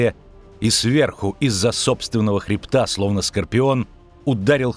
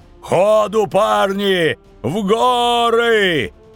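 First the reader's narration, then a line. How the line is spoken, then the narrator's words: Howling over noise. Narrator (Russian): Взвыл Ярпин Зигрин, перебивая рев Нищуки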